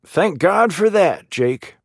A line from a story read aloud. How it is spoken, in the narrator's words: he cried